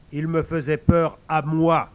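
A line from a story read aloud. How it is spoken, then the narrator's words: Old man, firmer tone. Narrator (French): rectifia le vieux d'un ton plus ferme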